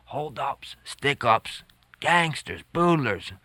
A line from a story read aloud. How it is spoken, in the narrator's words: People whispered each to each